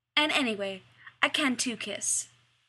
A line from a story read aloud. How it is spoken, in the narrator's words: Rodney said firmly